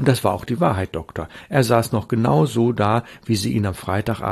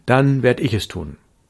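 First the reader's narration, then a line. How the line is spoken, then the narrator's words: Plain. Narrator (German): sagte ich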